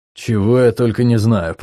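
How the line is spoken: Grumbling. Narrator (Russian): проворчал

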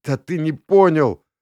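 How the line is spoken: Sobbing, blurted out. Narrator (Russian): рыдающим голосом вытолкнул Коста

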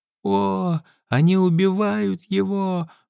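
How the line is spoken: Sobbing old woman's exclamation. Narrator (Russian): воскликнула старушка, рыдая

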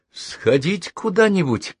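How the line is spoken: Unsure. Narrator (Russian): неуверенно добавил

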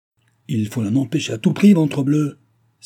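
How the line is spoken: Baron exclaiming. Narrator (French): s'écria le baron

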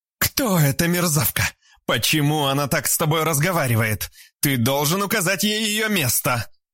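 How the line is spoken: Angry shout. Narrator (Russian): Краснея от злости, закричала Альбина

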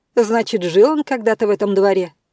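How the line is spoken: Somewhat irritated, woman. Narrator (Russian): Несколько раздраженно толковала женщина

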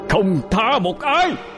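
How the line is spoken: Roar. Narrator (Vietnamese): Trần Minh gào lên

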